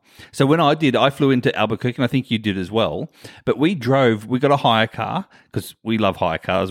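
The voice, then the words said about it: Non-American English accent. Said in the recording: “aren't as used to your accent ... You just called it a hire car? ... a new word that I say differently to Americans”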